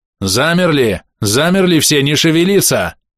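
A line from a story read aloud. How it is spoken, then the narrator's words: Yelled. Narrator (Russian): Заорал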